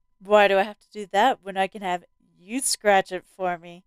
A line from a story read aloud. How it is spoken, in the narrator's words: Tim asked smoothly